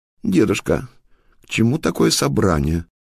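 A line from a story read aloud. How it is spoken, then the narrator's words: Trembling exclamation. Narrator (Russian): воскликнула вила купавка, затрепетав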